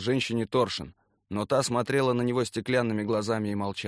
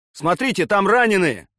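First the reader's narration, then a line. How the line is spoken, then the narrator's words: Shouted. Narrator (Russian): крикнул Гена Сергеев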